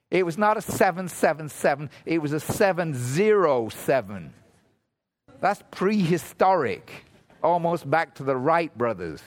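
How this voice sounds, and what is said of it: Foreign accent. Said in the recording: “I'm a foreigner ... I have a funny accent.”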